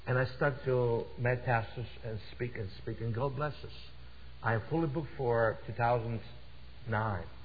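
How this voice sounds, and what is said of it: Russian accent. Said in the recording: “my Russian accent”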